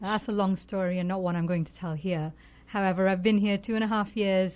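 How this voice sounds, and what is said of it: Foreign accent, sounds intelligent. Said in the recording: “your accent makes it sound like you know more than I do. I mean, you just sound intelligent.”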